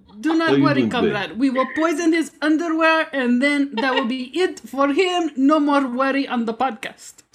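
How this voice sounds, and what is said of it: Convincing fake Russian accent. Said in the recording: “is really proud of this accent. ... She's so good. ... already mastered it. You go workshop your Russian accent”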